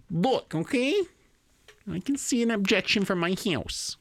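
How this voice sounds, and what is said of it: Imitates another person's voice. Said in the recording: “good Sarah Palin impression”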